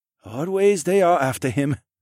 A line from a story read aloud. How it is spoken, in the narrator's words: the youngest brother sighed